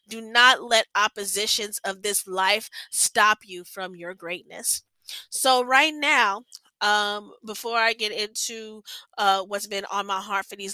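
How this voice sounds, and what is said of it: Stuffy, congested-sounding voice. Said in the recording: “I'm sorry if I sound weird. My allergies have been acting up”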